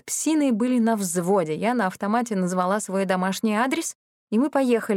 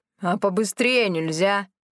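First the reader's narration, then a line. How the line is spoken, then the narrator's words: Growled. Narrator (Russian): рыкнула Милота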